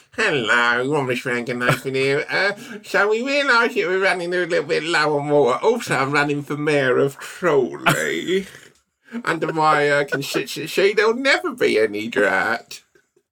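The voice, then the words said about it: Put-on politician campaign voice. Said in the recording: “You really stepped it up with a stank on that impression. ... that's your political vibe”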